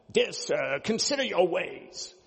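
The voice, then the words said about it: Polite put-on British accent. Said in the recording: “Sounds really polite, doesn't it? You can imagine like a person with a British accent.”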